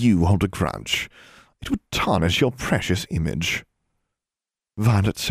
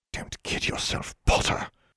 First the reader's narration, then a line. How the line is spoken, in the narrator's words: Pansy hissed